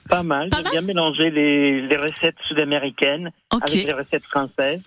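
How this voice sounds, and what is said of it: Slight Chilean Spanish accent. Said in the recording (French): “on entend un petit accent quand même ... on entend un petit accent dans votre voix ... De Chili, de Santiago du Chili”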